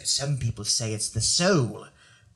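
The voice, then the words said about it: Weird, scary British accent. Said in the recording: “I gave her like a weird, scary British accent”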